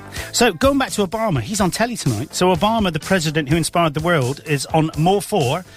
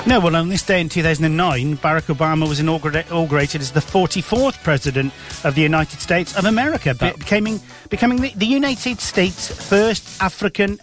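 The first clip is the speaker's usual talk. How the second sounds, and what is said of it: Put-on Welsh accent. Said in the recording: “why am I doing the blimmin' ... Welsh ... accent?”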